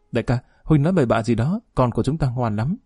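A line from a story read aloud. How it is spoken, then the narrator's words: Giggling mock scolding. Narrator (Vietnamese): Quý Hồng Nô cười khúc khích gắt giọng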